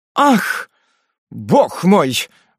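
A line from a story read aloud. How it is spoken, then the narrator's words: Exclaiming. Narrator (Russian): воскликнул он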